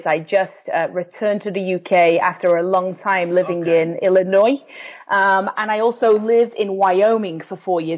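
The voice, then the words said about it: English accent. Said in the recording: “you can tell from the accent, I'm from England”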